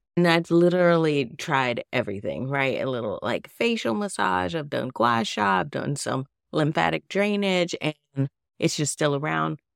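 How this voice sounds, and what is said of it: Nasal, congested voice. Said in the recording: “I know you can hear it in my voice. I'm still nasally, still got like a little like post-nasal drip.”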